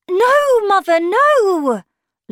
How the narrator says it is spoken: Lucy cried

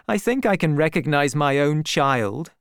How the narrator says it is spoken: I laughed

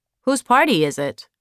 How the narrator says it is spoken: Jeremiah asked

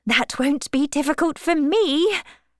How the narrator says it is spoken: said Miss Bates cheerfully

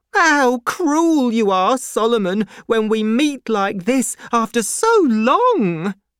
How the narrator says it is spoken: cried Miss Pross

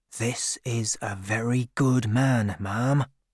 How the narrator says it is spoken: said one of the farm workers quietly

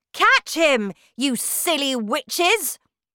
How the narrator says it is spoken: shouted the Grand High Witch

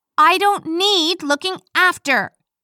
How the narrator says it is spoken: I yelled back at him

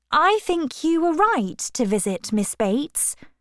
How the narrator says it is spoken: she told Frank cheerfully

